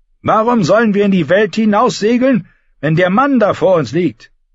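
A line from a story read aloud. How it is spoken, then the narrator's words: Shouted. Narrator (German): Alvin Sharp rief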